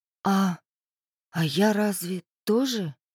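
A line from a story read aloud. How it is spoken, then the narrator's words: Uncertain question. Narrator (Russian): неуверенно спросила Ольга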